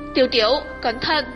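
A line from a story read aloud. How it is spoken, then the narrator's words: Sudden loud shout. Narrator (Vietnamese): Thiên Bà đột nhiên hét lớn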